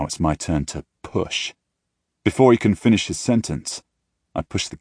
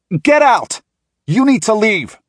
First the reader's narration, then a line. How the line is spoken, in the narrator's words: Landon shouts